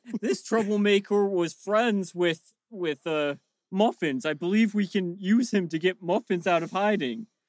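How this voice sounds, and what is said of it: Gnome character voice. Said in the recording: “I'm just using my character voice so the listeners at home are immersed. And in actuality, it's ... doing a gnome voice.”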